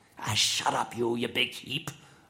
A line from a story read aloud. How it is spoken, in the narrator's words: I growled back